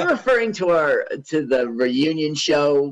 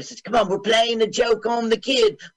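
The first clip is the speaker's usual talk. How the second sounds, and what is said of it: Put-on English accent. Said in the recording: “Why did you do an English accent? ... Why did I do an English accent? Dumb.”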